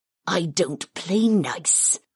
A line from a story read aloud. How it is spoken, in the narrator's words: Karth sneered